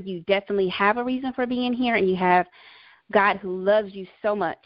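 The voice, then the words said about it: Slight American country accent. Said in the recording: “I'm country, if you can't hear it in my accent a little bit”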